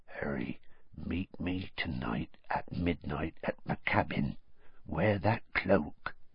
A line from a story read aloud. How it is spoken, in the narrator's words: said in a whisper so low that only Harry could hear it